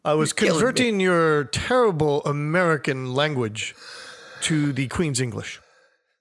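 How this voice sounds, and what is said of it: Poor put-on English accent. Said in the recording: “my terrible English accent”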